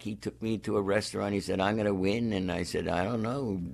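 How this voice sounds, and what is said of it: Slightly hoarse, froggy voice. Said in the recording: “your voice is a little off today ... I have a little bit of a frog in my throat”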